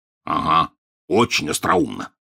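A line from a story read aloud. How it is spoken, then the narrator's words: Grumble. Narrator (Russian): проворчал Хагрид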